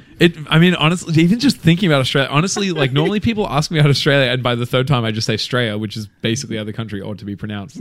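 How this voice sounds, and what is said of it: Thick Australian accent. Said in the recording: “he's Aussie ... Your accent's lately. Already thicker.”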